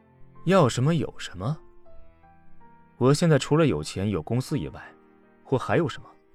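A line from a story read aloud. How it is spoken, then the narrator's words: Sarcastic. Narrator (Chinese): 阎洛北讽刺的说道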